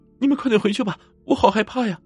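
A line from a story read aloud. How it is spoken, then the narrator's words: Tearful girl over radio. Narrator (Chinese): 那个女孩带着哭腔用手台说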